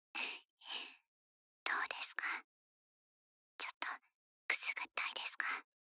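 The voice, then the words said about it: Soft whispering voice. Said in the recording (Japanese): “このくらいの声で、眠くなるまで。...パパの両脇から囁いていてあげるわ”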